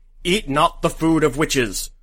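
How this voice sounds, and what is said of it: Urgent authoritative preacher-like voice. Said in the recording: “in an urgent voice of authority, like Ahab or a Scottish preacher”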